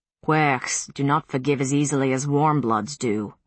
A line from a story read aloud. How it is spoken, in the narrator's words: Galloglass said gruffly